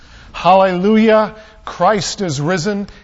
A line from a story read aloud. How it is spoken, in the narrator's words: thundered back